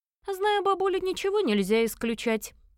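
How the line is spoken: Man snorting. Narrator (Russian): хмыкнул мужчина

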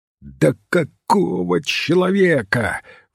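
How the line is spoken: Hoarse exclamation, voice cracking. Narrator (Russian): воскликнул магистр, и хриплый его голос сорвался

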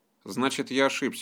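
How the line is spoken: Grumbling. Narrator (Russian): буркнул Нарек

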